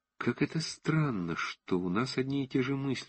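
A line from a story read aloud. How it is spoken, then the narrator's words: Quiet. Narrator (Russian): сказал он тихо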